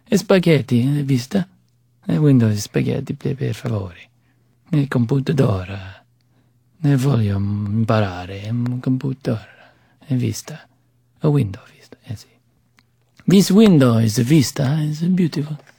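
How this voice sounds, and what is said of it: Put-on Italian accent. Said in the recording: “I kind of did Italian, Spanish with Italian accent. ... Oh, I do accent work.”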